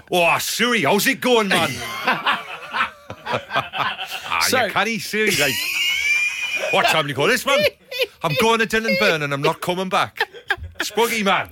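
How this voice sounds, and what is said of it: Put-on Newcastle accent. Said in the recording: “Katie's from like near Newcastle ... So how would you do that?”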